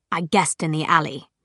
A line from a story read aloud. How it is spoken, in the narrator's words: Jace said